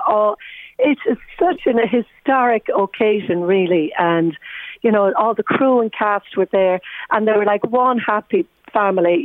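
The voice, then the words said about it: Hoarse, nearly lost voice. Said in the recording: “you can hear from my voice, it's nearly gone from all the shouting and screaming yesterday ... my voice is gone”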